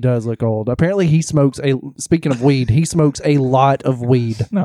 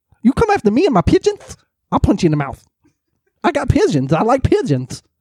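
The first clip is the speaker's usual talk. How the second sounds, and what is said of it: Imitates another person's voice. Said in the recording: “you don't have a Mike Tyson impersonation?”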